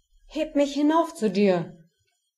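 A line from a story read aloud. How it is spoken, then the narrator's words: Calling out. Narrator (German): rief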